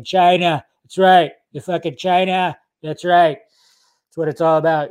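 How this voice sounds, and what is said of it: Donald Trump impression. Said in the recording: “do a Trump impression”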